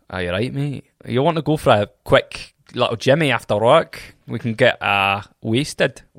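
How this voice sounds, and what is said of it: Put-on Scottish accent. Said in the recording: “Scottish”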